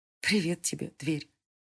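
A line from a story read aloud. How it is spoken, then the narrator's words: Quiet. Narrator (Russian): тихо сказала Селена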